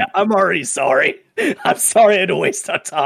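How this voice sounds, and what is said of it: Usual voice. Nothing is said of it.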